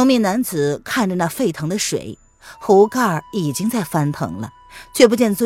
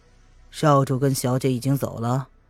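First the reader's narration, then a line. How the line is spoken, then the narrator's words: Cool, calm question. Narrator (Chinese): 他淡淡的挑了挑眉，问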